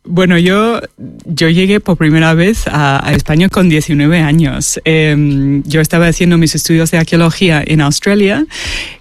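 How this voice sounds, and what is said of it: Australian accent speaking Spanish. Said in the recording (Spanish): “tienes un acento australiano ... es de ... Sydney.”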